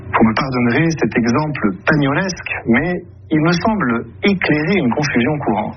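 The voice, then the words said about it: Weak, odd imitation of Marseille accent. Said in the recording (French): “On sent que ... essaie d'imiter l'accent marseillais, mais sans se lâcher totalement. Ça donne un accent, avouons-le, très bizarre, hein, une imitation pas trop réussie”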